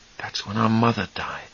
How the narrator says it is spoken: Charlie breathed softly

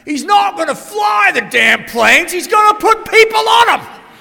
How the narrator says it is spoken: He's yelling at her

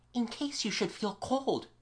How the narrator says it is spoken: she whispered

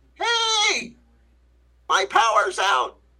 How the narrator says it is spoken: yell

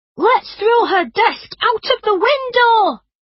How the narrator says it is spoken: yelled

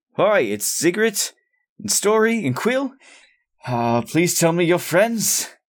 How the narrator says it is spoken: I shout

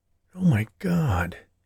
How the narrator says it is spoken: he muttered

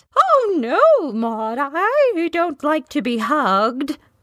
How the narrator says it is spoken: the headmistress exclaimed

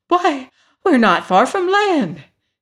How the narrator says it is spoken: exclaimed the hen

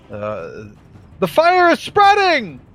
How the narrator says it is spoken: I'm going to have a voice shout out

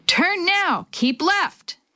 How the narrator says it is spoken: As another wave of water splashed over the front of the raft, Jake bellowed

